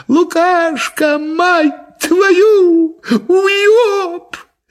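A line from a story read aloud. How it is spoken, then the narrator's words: Shouting in chorus. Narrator (Russian): все бляди хором закричали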